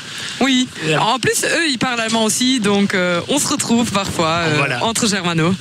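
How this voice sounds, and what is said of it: German-speaker's accent in French. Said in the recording (French): “j'adore votre accent ... C'est encore meilleur avec l'accent ... Je suis sûr qu'elle doit être très originale avec cet accent ... il n'y a pas énormément de germanophones”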